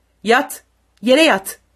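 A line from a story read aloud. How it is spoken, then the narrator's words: Shouted. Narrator (Turkish): diye bağırdı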